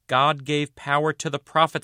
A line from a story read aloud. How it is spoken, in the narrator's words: man shouted